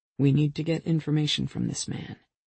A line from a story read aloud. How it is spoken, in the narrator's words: he cautioned in a low voice for her alone